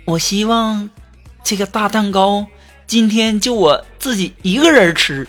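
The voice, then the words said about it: Quiet, hushed speaking voice. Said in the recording (Chinese): “小声的说”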